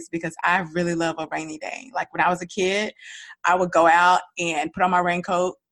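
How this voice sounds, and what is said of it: Giddy, excited voice. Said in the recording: “I am giddy. I hope you can hear it in my voice”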